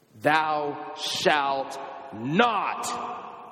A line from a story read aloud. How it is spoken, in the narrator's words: God thunders from Sinai